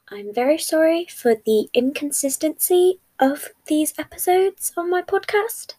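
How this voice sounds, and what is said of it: Young child's voice. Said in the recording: “As you can probably tell by my voice, I am a child”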